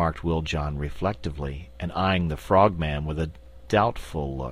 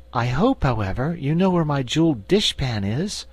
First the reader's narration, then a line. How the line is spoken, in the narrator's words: said the Cookie Cook anxiously